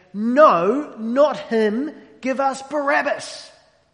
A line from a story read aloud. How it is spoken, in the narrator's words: they shout back